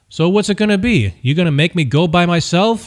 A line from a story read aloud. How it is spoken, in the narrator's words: Louis yelled